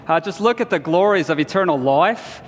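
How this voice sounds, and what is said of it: Put-on Australian accent. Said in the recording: “I had to teach in my version of an Australian accent ... the accent would keep slipping out”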